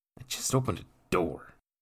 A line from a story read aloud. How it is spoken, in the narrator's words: Jacques grumbled in frustration